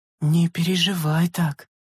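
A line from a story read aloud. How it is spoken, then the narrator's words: Quiet. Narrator (Russian): тихо произнесла она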